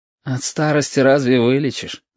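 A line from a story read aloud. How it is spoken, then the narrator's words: Sigh. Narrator (Russian): вздохнул Яшка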